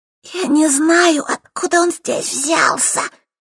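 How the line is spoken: Hoarse rasp. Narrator (Russian): прохрипела Светка

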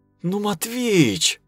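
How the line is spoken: Pleading. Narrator (Russian): взмолилась Кира

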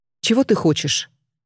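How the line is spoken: Cold question. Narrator (Russian): холодно спросила Алена

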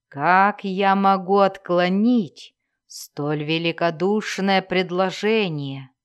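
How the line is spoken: Grating, inhuman voice. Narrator (Russian): проскрежетал он в ответ своим жутким, нечеловеческим голосом

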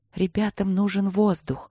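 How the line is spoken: Whispered explanation. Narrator (Russian): шепотом объяснила леди Редьяла

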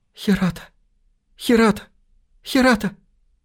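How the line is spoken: Faint tearful voice. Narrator (Russian): сквозь слезы чуть слышно произнесла

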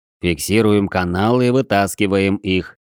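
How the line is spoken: Calm, measured words. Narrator (Russian): раздельно произнося слова и очень спокойно сказал Созерцатель

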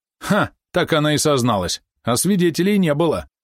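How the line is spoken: Very loud voice from shore. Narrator (Russian): снова голос с берега, но теперь он прозвучал очень громко

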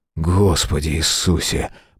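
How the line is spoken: Muttered. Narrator (Russian): пробормотал Мэлори

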